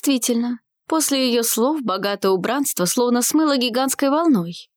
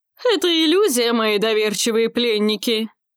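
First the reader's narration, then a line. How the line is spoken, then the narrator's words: Laughing. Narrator (Russian): Рассмеялась в ответ Кантра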